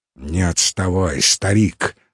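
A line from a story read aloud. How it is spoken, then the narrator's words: Through gritted teeth. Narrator (Russian): сказал сквозь зубы Алексей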